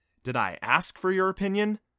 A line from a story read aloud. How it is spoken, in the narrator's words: Adam snapped